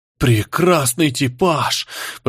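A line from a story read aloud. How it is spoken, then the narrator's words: Whisper. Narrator (Russian): прошептал оператор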